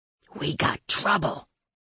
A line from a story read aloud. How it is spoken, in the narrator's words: he whispered